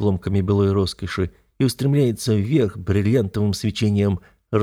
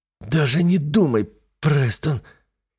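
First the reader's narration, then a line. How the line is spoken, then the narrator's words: Hissing. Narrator (Russian): зашипела она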